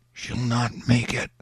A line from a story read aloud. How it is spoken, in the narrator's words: somebody whispered